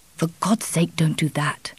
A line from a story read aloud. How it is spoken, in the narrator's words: whispered irritably